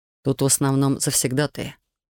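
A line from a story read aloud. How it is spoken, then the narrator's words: Dejected explaining voice. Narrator (Russian): поникшим голосом объяснил художник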